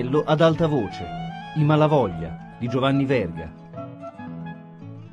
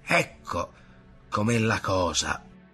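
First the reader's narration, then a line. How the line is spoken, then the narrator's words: Muttering. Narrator (Italian): borbottava Ntoni di Padron Ntoni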